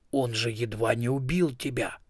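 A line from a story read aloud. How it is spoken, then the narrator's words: Hissed. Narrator (Russian): прошипел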